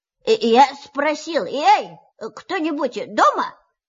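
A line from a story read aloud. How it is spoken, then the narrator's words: Very loud repetition. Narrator (Russian): повторил Пух громко-громко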